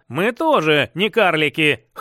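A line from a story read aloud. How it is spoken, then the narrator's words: Snorting chuckle. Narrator (Russian): хмыкнул Всеволод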